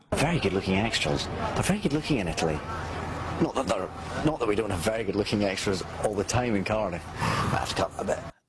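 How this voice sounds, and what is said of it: Scottish accent. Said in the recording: “The sexiest accent in the world is Scottish... This is the owner of the sexiest accent in the world.”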